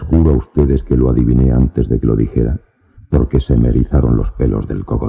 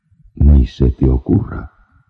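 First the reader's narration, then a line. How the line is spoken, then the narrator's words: Stammering. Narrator (Spanish): balbucí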